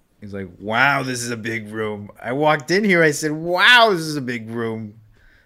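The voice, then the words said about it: Imitates another person's voice. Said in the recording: “pretty good Trump impression ... you just got to get Trump's cadence down”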